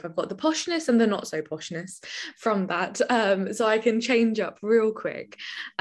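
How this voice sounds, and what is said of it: British English accent. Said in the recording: “We absolutely love your accent ... I'm from the UK”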